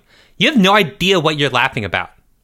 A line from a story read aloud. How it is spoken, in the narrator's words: Jeffrey snapped